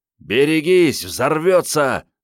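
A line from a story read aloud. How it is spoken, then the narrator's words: Yelling. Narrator (Russian): заорал Андрей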